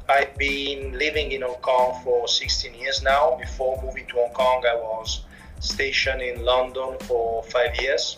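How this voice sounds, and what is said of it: Italian accent. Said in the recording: “I'm Italian, as you might have already understood from my accent ... I remain fundamentally Italian, definitely from my accent”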